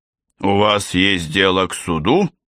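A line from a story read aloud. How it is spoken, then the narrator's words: Menacing growl. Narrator (Russian): грозно прорычал Т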